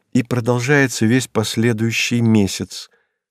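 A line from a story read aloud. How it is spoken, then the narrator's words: Calm continuation. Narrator (Russian): спокойно продолжила Александра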